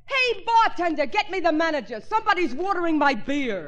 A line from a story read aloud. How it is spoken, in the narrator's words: yelled